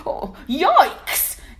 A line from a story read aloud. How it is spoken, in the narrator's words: yelped the lion